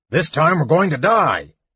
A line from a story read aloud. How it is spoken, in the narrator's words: Flint roared in rage